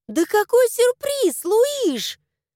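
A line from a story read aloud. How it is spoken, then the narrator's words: Indignant yell. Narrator (Russian): завопила возмущенно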